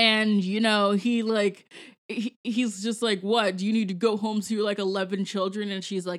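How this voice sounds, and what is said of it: Usual voice. Nothing is said of it.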